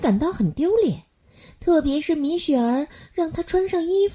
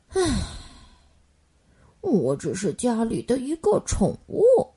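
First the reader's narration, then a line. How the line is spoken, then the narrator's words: Sighing. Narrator (Chinese): 莫卡叹了一口气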